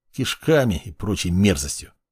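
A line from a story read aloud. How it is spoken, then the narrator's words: Muttering. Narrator (Russian): пробурчал Боря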